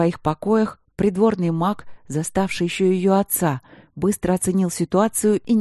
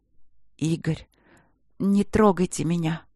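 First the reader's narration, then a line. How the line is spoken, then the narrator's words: Hoarse rasp. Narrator (Russian): прохрипела она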